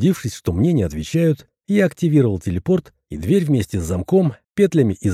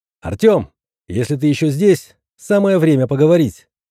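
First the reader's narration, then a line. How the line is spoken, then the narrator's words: Shouted. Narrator (Russian): крикнул я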